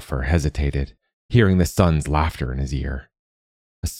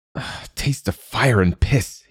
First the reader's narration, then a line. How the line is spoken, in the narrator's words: he hissed